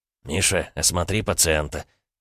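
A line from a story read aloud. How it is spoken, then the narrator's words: Quiet. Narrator (Russian): тихо проговорил Глеб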